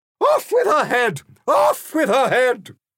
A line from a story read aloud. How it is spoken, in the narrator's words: The Queen, who would brook no contradiction, responded by screaming